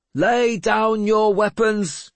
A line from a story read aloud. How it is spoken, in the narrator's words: Seatrigger shouted